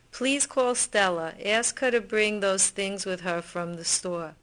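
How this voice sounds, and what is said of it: Distinct Brooklyn accent. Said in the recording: “this Brooklyn speaker ... It's a very distinct accent”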